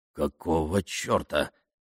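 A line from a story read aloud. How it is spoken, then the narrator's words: Muttered. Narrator (Russian): пробормотал полковник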